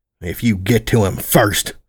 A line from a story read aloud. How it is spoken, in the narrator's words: I growled